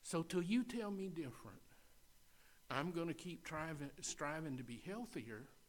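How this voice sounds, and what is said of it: Speaks with a noticeable accent. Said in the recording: “with this accent”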